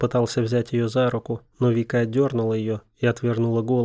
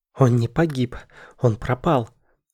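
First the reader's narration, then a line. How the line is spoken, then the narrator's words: Angry, through teeth. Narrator (Russian): Злобно процедила Вика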